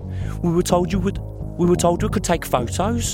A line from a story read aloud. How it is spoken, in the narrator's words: Claire cried